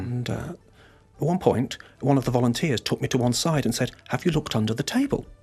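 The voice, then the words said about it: British accent. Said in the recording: “you can tell from my accent, I'm of British origin”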